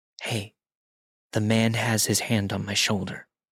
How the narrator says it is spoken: whispered

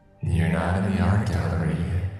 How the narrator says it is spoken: Harper's entity whispered in a distorted voice

